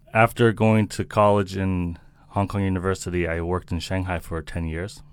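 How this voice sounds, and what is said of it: American accent. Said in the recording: “you've got this American accent. I'm assuming that you're American.”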